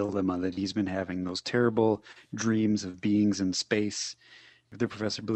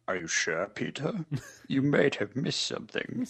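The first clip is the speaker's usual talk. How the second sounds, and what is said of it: Good put-on character accent. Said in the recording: “That's a good accent. You should keep that one.”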